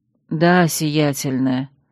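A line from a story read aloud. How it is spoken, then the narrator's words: Muffled from under hood. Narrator (Russian): глухо подтвердила она из-под капюшона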